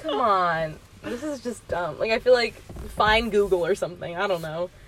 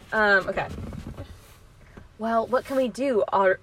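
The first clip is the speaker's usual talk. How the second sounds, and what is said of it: Strong put-on Australian accent. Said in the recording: “ordered the strong Aussie accent.”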